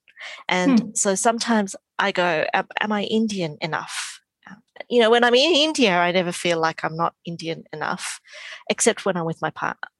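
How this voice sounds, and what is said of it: Strong Australian accent. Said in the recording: “As you can hear, I have a very strong accent, which is very Australian”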